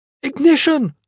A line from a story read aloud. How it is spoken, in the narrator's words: she shouted